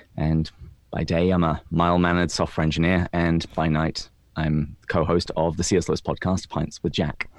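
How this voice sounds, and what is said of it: English accent. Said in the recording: “my delightful accent, I am not from the United States. I was born and raised in England”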